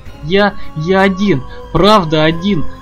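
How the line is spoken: Whimpering. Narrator (Russian): захныкал Брэндон

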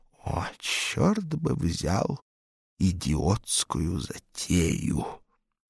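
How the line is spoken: Hissed. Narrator (Russian): Савелью Антоновичу, прошипевшему

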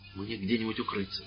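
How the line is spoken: Urgent whisper. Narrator (Russian): зашептал священник

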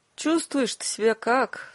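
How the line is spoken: Weak-voiced question. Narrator (Russian): слабым голосом спрашивает Ирина

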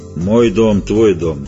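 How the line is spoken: Dry monster reply. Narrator (Russian): ответило чудище столь же сухо

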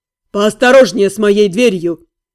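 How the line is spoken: Grumble. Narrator (Russian): проворчал Джилин

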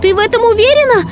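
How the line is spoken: Shouted. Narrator (Russian): прокричала Ренни

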